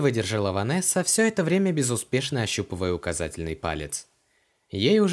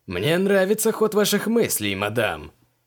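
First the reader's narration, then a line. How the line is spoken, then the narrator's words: Amused snort. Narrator (Russian): хмыкнул Поляков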